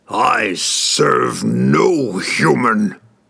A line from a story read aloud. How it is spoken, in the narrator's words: Ertu roared